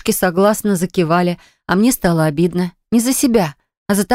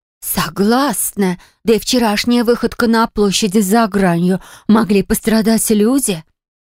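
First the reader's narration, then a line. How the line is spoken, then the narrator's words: Emotional exclamation. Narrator (Russian): эмоционально воскликнула Харриет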